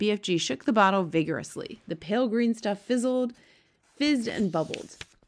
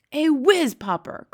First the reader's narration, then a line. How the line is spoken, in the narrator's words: cried the BFG, beaming at her